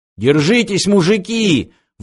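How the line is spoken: Sudden shout. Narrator (Russian): вдруг закричал Фыф

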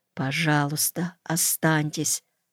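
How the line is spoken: Whispered. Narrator (Russian): Клавдия мне шепнула

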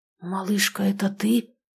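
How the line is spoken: Whispered question. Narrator (Russian): спросил почему-то шепотом

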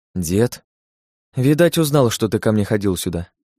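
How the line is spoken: Sighed. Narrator (Russian): вздохнула Настасья

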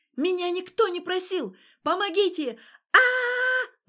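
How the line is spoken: Screaming louder. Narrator (Russian): заорала она еще громче

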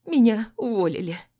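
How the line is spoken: Sobbing. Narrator (Russian): всхлипывает она

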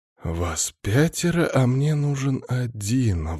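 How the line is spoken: Sigh. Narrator (Russian): вздохнул Алексей

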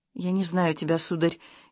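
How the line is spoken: Frightened whisper. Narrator (Russian): испуганно прошептала Любаша

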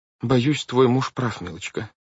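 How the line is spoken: Sad. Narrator (Russian): печально сказала судья Штраус

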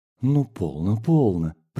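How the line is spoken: Whisper. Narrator (Russian): прошептала Зимина

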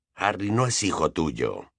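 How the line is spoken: Quiet voice. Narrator (Spanish): dijo Sirius en voz baja

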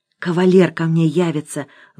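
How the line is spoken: Sighing. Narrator (Russian): вздохнула Лариса

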